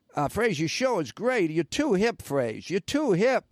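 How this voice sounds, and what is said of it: Attempted Boston accent. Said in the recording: “he had this Boston accent. He was from Boston. ... That's my best Boston accent. I can't really do one.”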